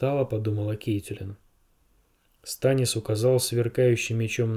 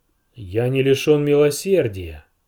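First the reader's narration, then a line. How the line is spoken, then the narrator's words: Booming. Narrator (Russian): прогремел он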